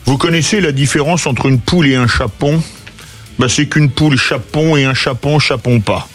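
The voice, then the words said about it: Put-on Auvergnat accent. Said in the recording (French): “il faut prendre l'accent auvergnat”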